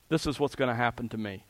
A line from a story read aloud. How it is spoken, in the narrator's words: said